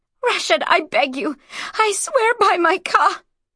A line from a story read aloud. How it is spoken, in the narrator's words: Tears of despair choked off the words and changed to sobs of fury